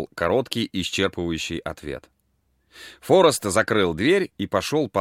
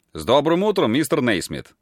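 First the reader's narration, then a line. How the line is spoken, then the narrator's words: Cheerful greeting. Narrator (Russian): весело обратился Форест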